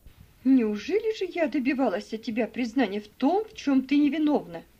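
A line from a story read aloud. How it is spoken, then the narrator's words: Exclamation. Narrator (Russian): воскликнула мисс Офелия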